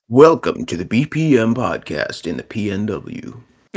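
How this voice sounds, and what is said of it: Radio announcer voice. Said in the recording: “You have to do it in like a radio announcer voice. ... That sounds more like NPR.”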